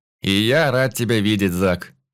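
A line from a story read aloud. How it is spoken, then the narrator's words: Scoffing grunt. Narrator (Russian): хмыкнул я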